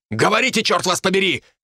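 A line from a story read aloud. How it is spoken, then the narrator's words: Snapped, losing patience. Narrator (Russian): не выдержав, рявкнула Ребекка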